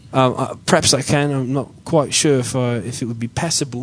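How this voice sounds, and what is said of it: Fake British Cockney-like accent. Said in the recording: “put on a fake British accent ... That's more of a Cockney. ... That's Blackpool.”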